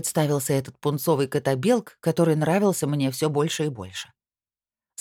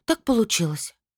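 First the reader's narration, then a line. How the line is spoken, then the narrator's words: Sighed. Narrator (Russian): вздохнула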